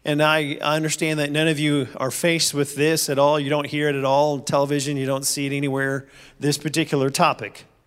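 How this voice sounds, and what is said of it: Sarcastic delivery. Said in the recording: “I'm being sarcastic.”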